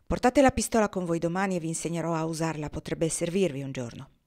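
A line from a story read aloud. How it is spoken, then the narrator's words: Brisk, curt tone. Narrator (Italian): disse in tono sbrigativo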